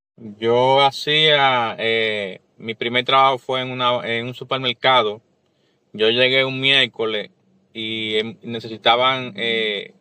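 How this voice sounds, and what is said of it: Dominican Spanish accent. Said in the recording (Spanish): “Sé que tú eres dominicano por el acento.”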